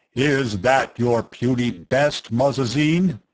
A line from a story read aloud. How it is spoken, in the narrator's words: the booming voice demanded